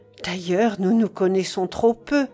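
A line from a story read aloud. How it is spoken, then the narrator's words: Sighing. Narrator (French): puis avec un soupir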